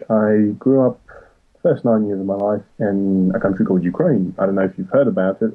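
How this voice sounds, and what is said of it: Non-British Ukrainian accent. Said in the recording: “Maybe you can tell by my accent, I'm not fully British.”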